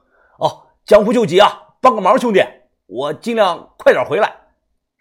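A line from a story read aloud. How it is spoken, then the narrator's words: Loud, hurried, moving away. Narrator (Chinese): 胖子已经跑走了，并且他大声的说道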